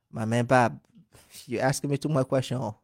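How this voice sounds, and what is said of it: Liberian English accent. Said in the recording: “the Liberian accent ... That's the accent. That's really the accent. ... You speak fast.”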